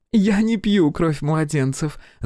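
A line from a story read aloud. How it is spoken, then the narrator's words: Ringing laughter. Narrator (Russian): заливисто рассмеялась Хелена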